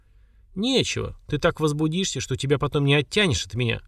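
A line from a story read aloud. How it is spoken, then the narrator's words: Snort. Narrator (Russian): хмыкнул Слава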